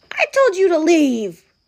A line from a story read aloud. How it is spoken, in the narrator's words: cried Bear